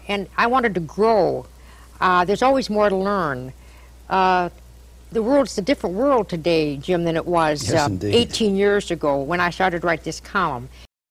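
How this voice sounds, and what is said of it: Nasal upper Midwest accent. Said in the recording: “That's upper Midwest accent right there... It's all in the nose.”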